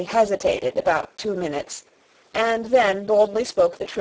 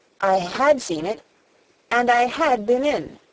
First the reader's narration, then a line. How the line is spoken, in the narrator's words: she said